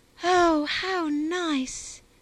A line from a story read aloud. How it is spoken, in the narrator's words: exclaimed Harriet, clapping her hands in ecstasies